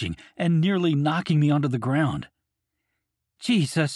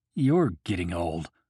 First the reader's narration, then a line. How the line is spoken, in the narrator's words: I mumble under my breath